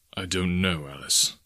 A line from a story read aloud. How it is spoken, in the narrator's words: he answered gravely